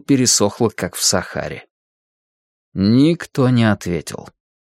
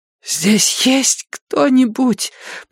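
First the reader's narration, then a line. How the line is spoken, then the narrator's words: Hoarse rasp. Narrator (Russian): прохрипела Мэнди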